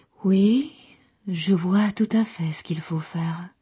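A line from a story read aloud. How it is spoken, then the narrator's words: Very soft murmur. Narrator (French): murmura-t-elle tout bas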